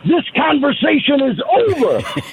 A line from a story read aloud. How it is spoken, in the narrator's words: he screamed